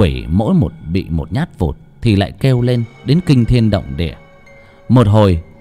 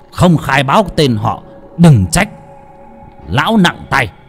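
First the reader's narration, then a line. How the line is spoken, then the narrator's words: Harsh stern voice. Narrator (Vietnamese): thầy lại gằn giọng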